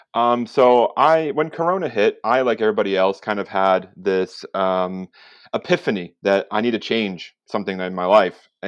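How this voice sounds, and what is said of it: Boston accent. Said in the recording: “if you can tell by my accent, I'm from outside of Boston”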